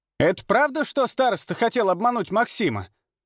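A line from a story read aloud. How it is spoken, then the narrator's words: Loud question, woman. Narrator (Russian): громко спросила одна из женщин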